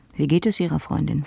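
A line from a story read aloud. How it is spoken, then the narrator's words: Plain. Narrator (German): fragte er dann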